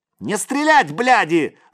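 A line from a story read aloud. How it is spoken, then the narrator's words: Screamed. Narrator (Russian): завопил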